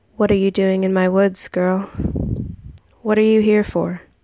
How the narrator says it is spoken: His voice was deep and low, and sounded more like a growl than anything

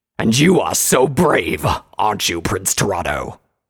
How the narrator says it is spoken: Gravitas spat out

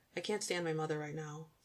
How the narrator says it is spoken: Scott said in a hurried tone

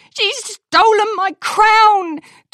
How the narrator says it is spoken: Twilight yelled as she sped past them

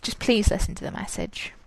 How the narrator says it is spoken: he just mumbled

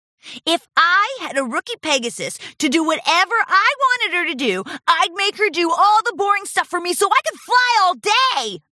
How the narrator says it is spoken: shouted

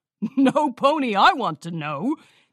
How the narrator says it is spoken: Cheese Sandwich laughed

